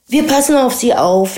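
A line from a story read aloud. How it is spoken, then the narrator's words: Laughing. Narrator (German): lachte Birovka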